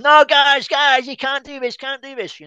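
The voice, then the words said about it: Bad put-on American accent. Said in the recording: “in my worst American accent”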